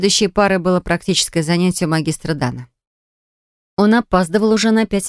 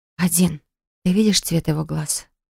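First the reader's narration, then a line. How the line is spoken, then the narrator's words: Whispered question. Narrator (Russian): спросила шепотом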